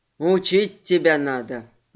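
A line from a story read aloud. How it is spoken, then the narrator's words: Grumbling. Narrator (Russian): ворчал Морли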